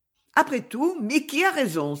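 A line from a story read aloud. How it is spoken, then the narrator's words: Exclaimed. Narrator (French): s'écria-t-elle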